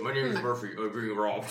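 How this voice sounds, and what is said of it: Put-on fake voice. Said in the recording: “In a fake voice,”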